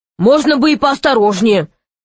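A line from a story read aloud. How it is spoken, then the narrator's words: Grumbling. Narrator (Russian): проворчал он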